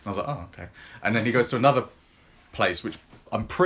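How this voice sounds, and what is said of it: Usual voice. Nothing is said of it.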